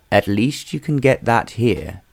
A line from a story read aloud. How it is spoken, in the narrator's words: said Hallam